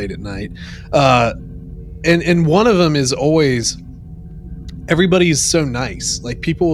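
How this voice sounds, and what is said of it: Usual voice. Nothing is said of it.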